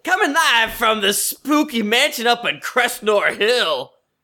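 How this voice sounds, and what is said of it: Radio DJ announcer voice. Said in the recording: “Pretty good radio voice.”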